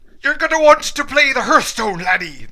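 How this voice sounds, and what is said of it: Attempted Scottish accent sounding Irish. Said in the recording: “everybody do your best Scottish accent ... That was Irish ... that was so Irish”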